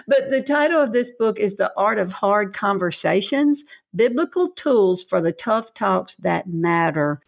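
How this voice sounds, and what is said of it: Southern American accent. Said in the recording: “the Southern accent coming through up here in New England ... It's my accent, for better or worse”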